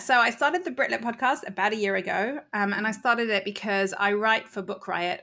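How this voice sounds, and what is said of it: British accent. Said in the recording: “as you can hear from my accent, I am actually British”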